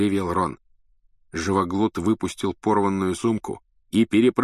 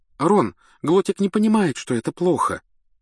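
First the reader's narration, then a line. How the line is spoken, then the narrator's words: Trembling, defensive voice. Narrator (Russian): оправдывалась Гермиона дрожащим голосом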